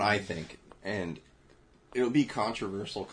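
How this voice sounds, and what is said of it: Usual voice. Nothing is said of it.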